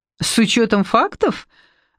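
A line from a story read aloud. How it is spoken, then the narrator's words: Laughing. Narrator (Russian): рассмеялась Евгения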